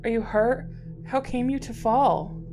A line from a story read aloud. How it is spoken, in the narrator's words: she cried